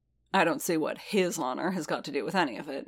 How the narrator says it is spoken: he grumbled

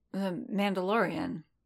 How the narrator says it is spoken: Quinlan murmured

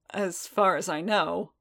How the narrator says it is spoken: Boba said dryly

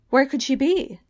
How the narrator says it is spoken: Lady Pole cried

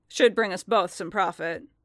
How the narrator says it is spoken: Fett grunted

